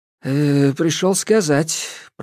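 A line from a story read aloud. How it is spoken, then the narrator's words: Mumbling. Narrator (Russian): промямлил Дадоныч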